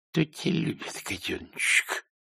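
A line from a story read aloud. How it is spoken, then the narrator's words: Low muttering. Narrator (Russian): вполголоса пробормотал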